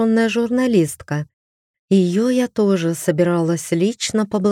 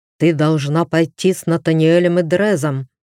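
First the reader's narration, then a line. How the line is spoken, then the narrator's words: Husband's growl. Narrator (Russian): прорычал муж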